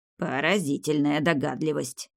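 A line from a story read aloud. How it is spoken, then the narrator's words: Grumbling old man. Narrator (Russian): проворчал дед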